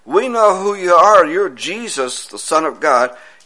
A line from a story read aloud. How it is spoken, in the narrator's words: demons cried out and said